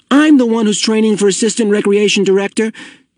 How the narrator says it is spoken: Asher pointed out angrily

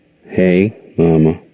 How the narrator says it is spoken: said Gerald slowly

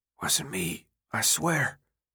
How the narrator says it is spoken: Albi murmured

